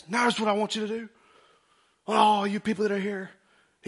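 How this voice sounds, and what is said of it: Booming preacher voice. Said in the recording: “He's got that preacher voice... Those guys that got that preacher... It's like a Bishop Jakes. Like, it just moves.”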